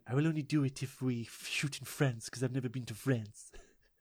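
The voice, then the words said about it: Vincent Price impression drifting into Mr. Burns. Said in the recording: “That's not a bad Vincent Price. ... I'm Vincent Price. I will work on my accent. No, I'm turning to Mr. Burns. ... You are turning to Mr. Burns.”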